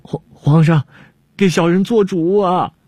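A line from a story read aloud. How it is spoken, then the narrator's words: Crying out. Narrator (Chinese): 郭舍人……叫道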